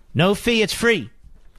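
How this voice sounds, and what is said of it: Jesse Jackson impression. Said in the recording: “my Jesse Jackson imitation”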